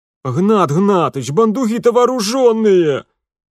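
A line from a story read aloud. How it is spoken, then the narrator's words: Wailing like hurt child. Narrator (Russian): Юхимка завопил, как обиженный ребенок, вызывающий на помощь родителя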